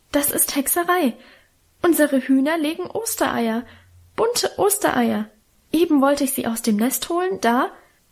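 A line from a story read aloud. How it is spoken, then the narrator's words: Stammer. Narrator (German): stammelte sie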